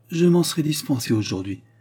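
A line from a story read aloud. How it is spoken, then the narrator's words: Mother's sighing reply. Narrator (French): répondit sa mère en soupirant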